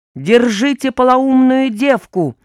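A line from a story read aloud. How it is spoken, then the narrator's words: Guard shouting. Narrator (Russian): выкрикнул один из охранников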